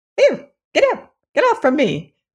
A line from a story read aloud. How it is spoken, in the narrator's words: cried a faint voice